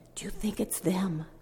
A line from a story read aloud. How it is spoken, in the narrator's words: with a scared look in his face and said quietly